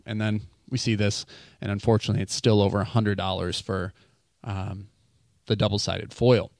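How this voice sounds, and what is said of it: Breathless, agitated speech. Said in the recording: “I think I'm about out of breath there. And my fury, I was trying to contain it.”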